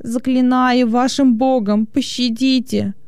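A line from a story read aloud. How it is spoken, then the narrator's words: Moaning. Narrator (Russian): стонал он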